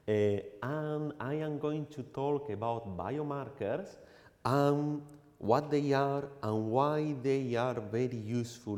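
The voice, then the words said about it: Strong foreign accent. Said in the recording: “I have a very strong accent”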